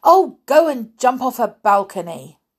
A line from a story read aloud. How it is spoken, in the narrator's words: in exasperation, Jasmine cried